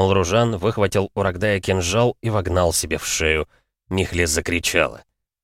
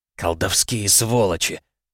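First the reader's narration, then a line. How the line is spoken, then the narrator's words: Hissed through teeth. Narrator (Russian): процедил Лютей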